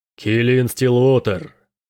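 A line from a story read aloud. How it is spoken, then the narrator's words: Deep booming giant. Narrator (Russian): низким голосом прогремел гигант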